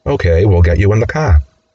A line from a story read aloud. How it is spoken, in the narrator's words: Steve calmly says